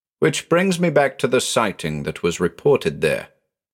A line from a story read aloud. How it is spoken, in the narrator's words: I said